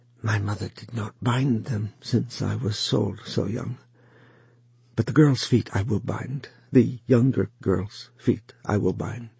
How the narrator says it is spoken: she said in a whisper

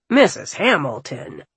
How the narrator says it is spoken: the apothecary said in a scolding tone

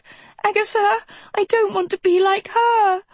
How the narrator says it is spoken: Sophie pleaded

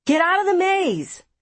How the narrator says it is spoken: they shouted to everyone

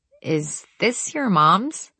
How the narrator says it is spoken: asked uneasily

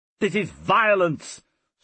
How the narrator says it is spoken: snapped Caesar, as if rebuking an outrage to his dignity

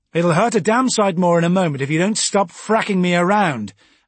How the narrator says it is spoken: I shouted suddenly

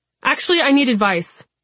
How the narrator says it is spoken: I blurt

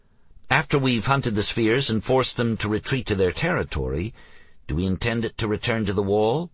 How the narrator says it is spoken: Ellie asked

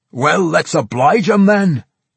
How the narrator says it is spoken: Bungalow Thump cried

